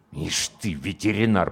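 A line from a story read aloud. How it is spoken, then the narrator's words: Curt muttering. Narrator (Russian): процедил комбат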